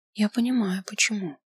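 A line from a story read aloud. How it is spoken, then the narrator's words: Quiet, careful. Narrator (Russian): сказала тихо, боясь прервать рассказчика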